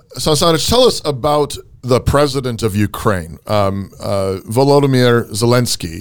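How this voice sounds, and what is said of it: Put-on Ukrainian accent. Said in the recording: “I'm trying to do my best Ukrainian accent.”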